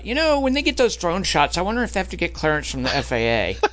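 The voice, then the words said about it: Imitates another person's voice. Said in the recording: “That's a great impression of me”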